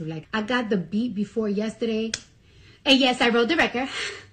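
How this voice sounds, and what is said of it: Speaker's own distinctive accent. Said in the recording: “one thing I've been really insecure about is my accent... People love her accent.”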